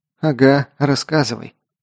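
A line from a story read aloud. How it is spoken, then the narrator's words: Grumbled. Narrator (Russian): буркнула Элли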